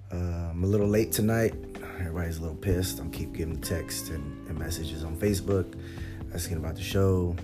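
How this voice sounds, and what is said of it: Strained, failing voice. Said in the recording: “I'm losing my voice. So if I sound a little funny”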